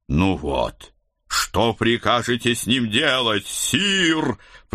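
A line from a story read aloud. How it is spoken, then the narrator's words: Growling. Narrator (Russian): прорычал Седрик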